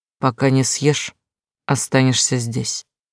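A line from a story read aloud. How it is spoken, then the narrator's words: Grim. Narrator (Russian): мрачно сказал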